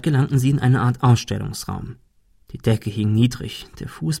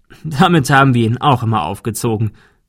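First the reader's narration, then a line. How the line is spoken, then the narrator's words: Laughing. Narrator (German): der Notar lachte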